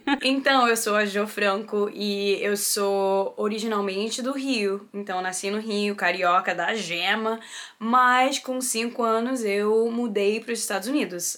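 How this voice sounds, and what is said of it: Slight American accent in Portuguese. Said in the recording (Portuguese): “eu tenho um sotaquezinho americanizado”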